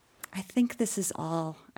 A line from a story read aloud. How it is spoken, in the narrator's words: said meekly